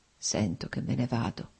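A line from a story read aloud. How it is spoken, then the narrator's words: Slow, labored, precise murmur. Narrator (Italian): mormorò Nikolai, articolando lentamente le parole, con fatica ma con straordinaria precisione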